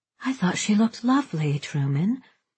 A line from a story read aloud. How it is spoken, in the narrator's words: Babe said, quietly admonishing